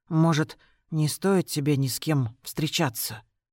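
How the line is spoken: Whisper. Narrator (Russian): продолжаю шепотом

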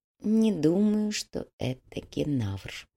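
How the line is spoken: Barely audible whisper. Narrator (Russian): едва слышно прошептал Тао

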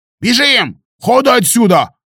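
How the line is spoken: Yelling from above. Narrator (Russian): заорал Калуга над головой

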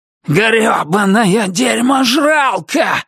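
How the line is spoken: Yelling. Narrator (Russian): заорал Туз

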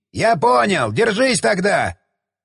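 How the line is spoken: Shouted. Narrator (Russian): крикнул он

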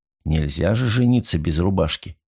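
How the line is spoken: Plain. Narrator (Russian): сказал я

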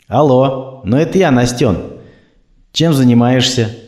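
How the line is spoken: Sad question. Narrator (Russian): грустно спросил

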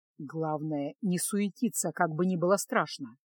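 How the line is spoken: Whisper. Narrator (Russian): шепнул Кайл

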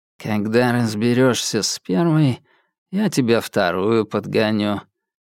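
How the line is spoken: Lazy, close by. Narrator (Russian): лениво сказали в двух шагах от Альки

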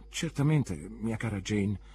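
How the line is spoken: Meek stammer. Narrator (Italian): balbettò mia madre mansuetamente

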